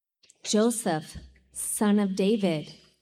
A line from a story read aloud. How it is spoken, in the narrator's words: the angel said